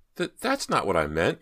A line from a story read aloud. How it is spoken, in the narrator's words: Myra stammered